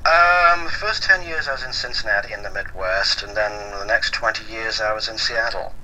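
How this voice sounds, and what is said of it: American-tinged accent. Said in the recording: “I'm hearing in the accent, you've definitely spent some time in the States.”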